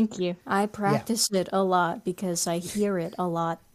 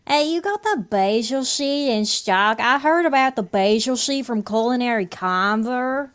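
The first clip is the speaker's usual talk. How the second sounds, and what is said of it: Local Southern Oregon accent. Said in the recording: “That's a very good Medford, White City, Eagle Point accent... you nailed it”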